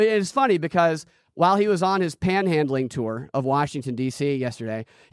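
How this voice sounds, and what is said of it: Usual voice. Nothing is said of it.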